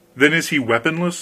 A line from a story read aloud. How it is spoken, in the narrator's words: said the king